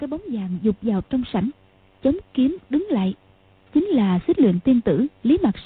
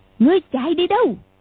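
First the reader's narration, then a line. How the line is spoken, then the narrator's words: Distant shout. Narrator (Vietnamese): ngoài sảnh có tiếng quát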